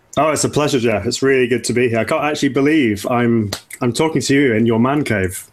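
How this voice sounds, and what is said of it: English accent. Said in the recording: “his English accent gives this show an air of sophistication.”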